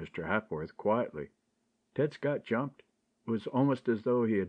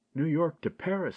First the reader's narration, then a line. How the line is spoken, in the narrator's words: he exclaimed